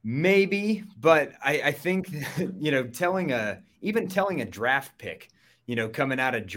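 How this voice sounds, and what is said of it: Usual voice. Nothing is said of it.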